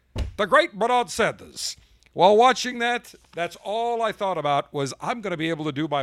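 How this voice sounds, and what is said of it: Usual voice. Nothing is said of it.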